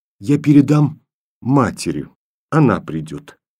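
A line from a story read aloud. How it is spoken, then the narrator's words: Quiet. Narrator (Russian): тихо сказала Таня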